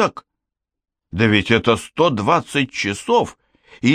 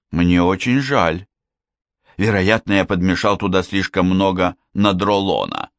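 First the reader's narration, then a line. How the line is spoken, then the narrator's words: Plain. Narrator (Russian): сказал Штернхайм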